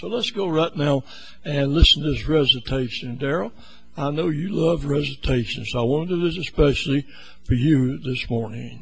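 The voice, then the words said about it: Slightly hoarse voice. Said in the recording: “I'm a little hoarse this morning”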